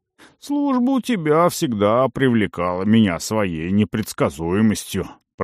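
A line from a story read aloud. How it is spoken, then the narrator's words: Familiar grumbling voice. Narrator (Russian): проворчал знакомый голос за спиной Арона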